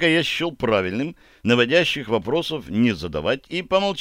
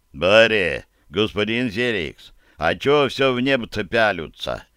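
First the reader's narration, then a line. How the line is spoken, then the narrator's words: Deep bass voice. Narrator (Russian): пробасил Барри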